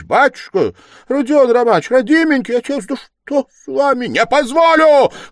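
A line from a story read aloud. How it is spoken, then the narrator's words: Shouting. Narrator (Russian): крикнул было другой раз Раскольников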